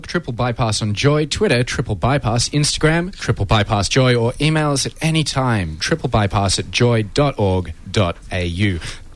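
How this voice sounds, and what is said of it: Sultry radio voice. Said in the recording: “It's a good radio voice, ... It's sultry.”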